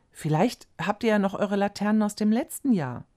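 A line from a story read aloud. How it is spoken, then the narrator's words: Asked. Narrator (German): fragte Frau Fröhlich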